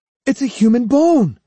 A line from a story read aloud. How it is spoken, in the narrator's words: he cried